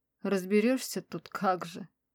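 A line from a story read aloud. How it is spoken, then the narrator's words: Joyless grumbling mutter. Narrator (Russian): Хмыкнула безрадостно и пробурчала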